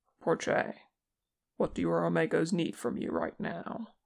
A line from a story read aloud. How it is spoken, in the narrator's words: his voice remained calm and confident when he said